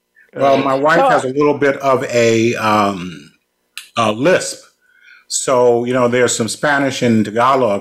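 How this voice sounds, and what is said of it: New York accent. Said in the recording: “I have the New York accent. That doesn't leave me.”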